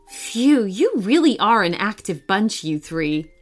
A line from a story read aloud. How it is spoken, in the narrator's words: Emily laughed